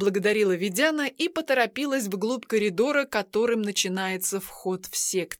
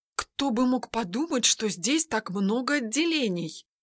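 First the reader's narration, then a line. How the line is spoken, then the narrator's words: Muttered. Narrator (Russian): пробормотала Ведяна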